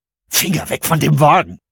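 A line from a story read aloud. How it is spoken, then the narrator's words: Hissed. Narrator (German): zischte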